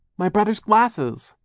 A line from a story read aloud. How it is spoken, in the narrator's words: Violet cried